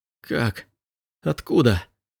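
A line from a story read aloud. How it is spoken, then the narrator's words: Choked, barely audible whisper. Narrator (Russian): Голос Элиаса прозвучал придушенным шепотом, почти неслышным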